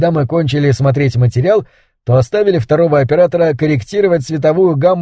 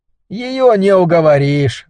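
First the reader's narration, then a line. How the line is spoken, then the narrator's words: Sighing. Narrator (Russian): вздохнул Разинский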